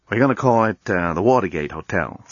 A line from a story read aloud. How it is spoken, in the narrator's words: said Dan